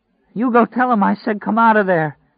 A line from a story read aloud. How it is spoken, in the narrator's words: cried